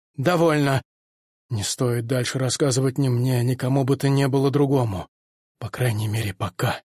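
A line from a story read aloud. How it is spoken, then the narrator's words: Suddenly calmer tone. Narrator (Russian): совершенно неожиданно сказал Пифагор уже более спокойным тоном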